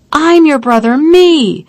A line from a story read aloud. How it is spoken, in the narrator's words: I cursed him, I cried